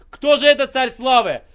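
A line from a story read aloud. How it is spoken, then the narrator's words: Terrified scream. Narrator (Russian): Тогда в ужасе закричал ангел-хранитель ада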